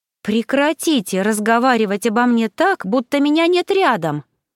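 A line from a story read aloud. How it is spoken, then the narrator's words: Exclaiming, voice regained. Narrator (Russian): воскликнула я, обретя, наконец, голос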